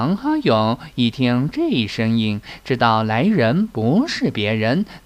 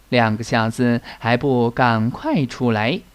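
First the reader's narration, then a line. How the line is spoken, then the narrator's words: Chuckling. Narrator (Chinese): 来人嘿嘿一笑道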